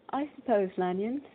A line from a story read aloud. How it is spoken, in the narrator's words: said he